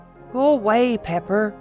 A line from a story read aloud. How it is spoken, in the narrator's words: groaned